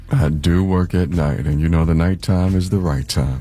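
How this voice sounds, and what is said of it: Sexy smooth radio voice. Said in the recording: “you got a sexy voice.”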